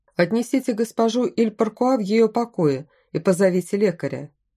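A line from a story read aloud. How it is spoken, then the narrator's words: Plain. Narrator (Russian): сказал генерал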